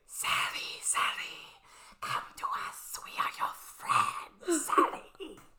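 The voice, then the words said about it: Weird creepy creature voice. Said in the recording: “they have, like, these weird, creepy voices ... That's a really good impression.”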